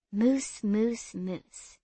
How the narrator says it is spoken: she whispered back

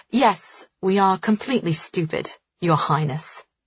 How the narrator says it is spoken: she says coldly

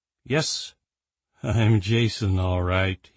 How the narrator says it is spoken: he said with a grim chuckle

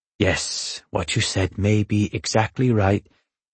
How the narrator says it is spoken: Manshiki suddenly murmured

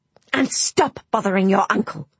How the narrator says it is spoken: hissed Aunt Adeline

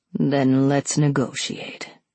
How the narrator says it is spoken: he said in the smoothest, richest voice I had ever heard

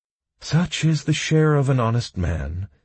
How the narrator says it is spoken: sadly sighed Mr

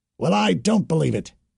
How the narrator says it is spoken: the High Priest said angrily

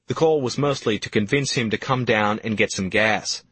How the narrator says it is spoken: says Cotter

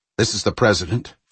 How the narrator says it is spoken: Fowler said in a gruff, suddenly frightened voice

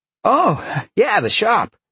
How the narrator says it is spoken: Alex said happily

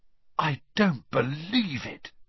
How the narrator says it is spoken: Ron said in a stunned voice

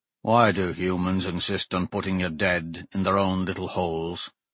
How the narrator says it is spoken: Morn muttered

